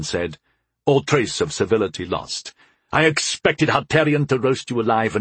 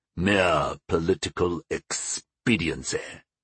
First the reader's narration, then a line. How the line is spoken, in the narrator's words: sneered the old man